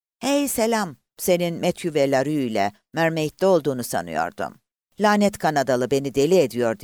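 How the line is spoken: Grumbled. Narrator (Turkish): diye homurdandı Buck

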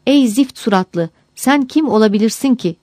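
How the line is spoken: Cried out. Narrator (Turkish): diye haykırmış

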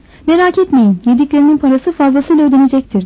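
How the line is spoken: Plain. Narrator (Turkish): dedi

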